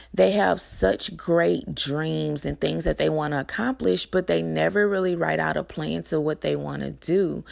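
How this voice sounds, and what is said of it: Slightly hoarse voice. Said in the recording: “I'm a little hoarse.”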